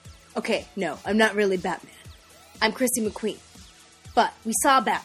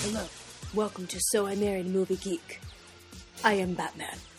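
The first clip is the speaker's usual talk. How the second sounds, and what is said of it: Poor low-voiced Batman impression. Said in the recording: “That was a terrible impression of Batman ... I don't have that low voice, that register.”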